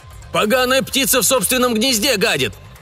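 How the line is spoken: Shout from crowd. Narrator (Russian): крикнул кто-то из толпы

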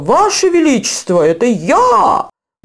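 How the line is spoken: Exclaimed. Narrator (Russian): воскликнул он

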